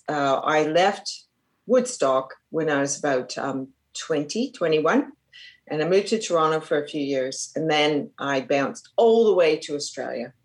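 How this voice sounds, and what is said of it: Hybrid Australian-Canadian accent. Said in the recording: “i have a bit of a hybrid aussie canadian accent and that's from being here for quite a few years”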